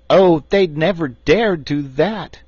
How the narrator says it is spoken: exclaimed Tiny Trot

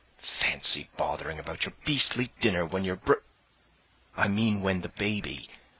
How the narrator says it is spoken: Jane whispered hotly

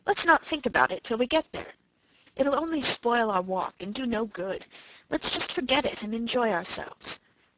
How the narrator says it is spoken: said cheerfully

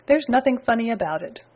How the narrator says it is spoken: retorted Spooky

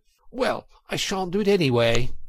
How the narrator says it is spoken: cried the Toad, getting excited

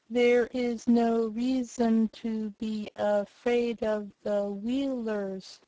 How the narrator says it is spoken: said Tick-Tock, the words coming more slowly than before

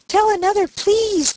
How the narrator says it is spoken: cried Daisy

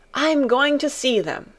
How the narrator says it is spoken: cried Colin

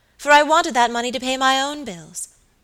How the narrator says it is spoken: answered Lucy Audley, with a bitter laugh

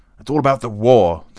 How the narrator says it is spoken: the count shouted down the table

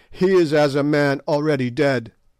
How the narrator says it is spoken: the proud ones who tossed their spears and cried

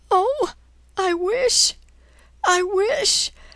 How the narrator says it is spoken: Her sobs stopped her

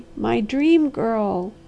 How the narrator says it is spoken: he cried hoarsely

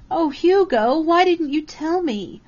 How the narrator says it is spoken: Karen Marshall wailed

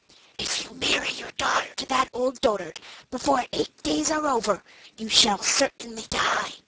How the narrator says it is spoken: whispered in her ear

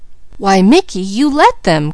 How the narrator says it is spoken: cried Peaches

